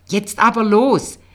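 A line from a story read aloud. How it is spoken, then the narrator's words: Calling out. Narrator (German): rief Federle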